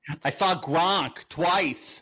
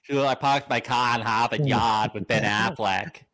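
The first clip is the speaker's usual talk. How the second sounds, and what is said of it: Put-on thick Boston accent. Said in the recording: “This explains her thick Boston accent.”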